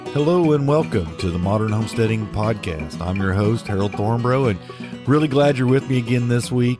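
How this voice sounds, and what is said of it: Sick, congested, stuffed-up voice. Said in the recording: “I've been just super, super sick for like a week, coughing really bad, really stuffed up head ... as you can hear in my voice today, I'm still not over it”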